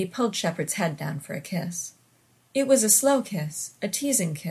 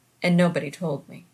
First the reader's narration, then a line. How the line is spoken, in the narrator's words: Shepard said flatly